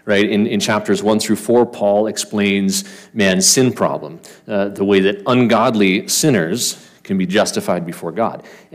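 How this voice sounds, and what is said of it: Canadian accent. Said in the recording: “sorry for the Canadian accent”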